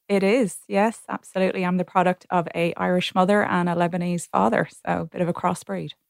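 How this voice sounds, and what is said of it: Irish accent. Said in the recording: “I detect an accent there. Sounds Irish.”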